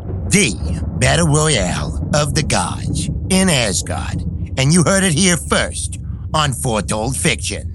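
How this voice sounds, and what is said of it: Sports announcer voice. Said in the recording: “I've been working on my announcer voice. ... Look, it sounds great. ... Sounds pretty good”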